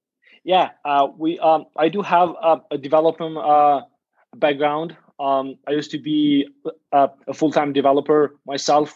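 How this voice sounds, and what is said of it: Non-American accented English. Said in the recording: “the not so American accent uh, or, or style of speaking”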